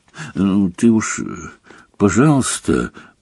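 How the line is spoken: Muffled mutter. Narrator (Russian): приглушенно пробормотал Рон

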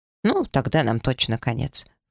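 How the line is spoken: Snorting scoff. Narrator (Russian): фыркнул гном

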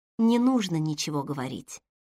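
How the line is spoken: Soft, gentle. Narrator (Russian): сказала она мягко

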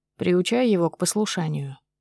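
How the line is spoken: Even tone. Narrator (Russian): проговаривает Ян ровным тоном

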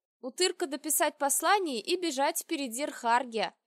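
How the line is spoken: Cheerful announcement. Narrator (Russian): радостно сообщила я

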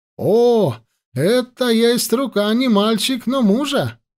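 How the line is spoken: Exclamation. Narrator (Russian): воскликнул

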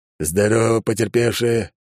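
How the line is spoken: Growled. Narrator (Russian): рыкнул он

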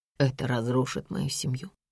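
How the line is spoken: Quiet question. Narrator (Russian): тихо спрашивает он

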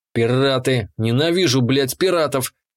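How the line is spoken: Growling outburst. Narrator (Russian): вырвалось из меня с рычанием

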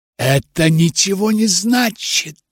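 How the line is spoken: Whisper. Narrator (Russian): прошептала я

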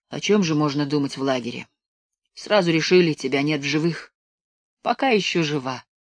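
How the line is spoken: Sad smiling squirrel. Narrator (Russian): грустно улыбнулась белка

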